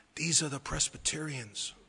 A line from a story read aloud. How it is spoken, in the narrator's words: the angel opened and said with a whisper